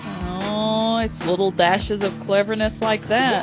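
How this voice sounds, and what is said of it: Sarcastic delivery. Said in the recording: “I was being sarcastic.”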